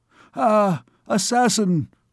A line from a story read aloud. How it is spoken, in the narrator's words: cried the king